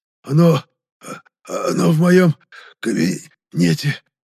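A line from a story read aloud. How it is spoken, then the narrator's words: Barely squeezed out, strained. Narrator (Russian): Едва сумел выдавить из себя пухлощекий мужчина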